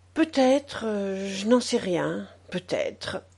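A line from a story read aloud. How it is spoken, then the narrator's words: Said in an undertone. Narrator (French): dit-il à mi-voix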